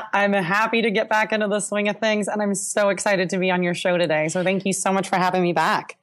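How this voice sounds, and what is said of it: Tired, worn-out voice. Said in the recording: “My voice is also tired as well, because I had two conferences back to back ... So my voice is a little tired”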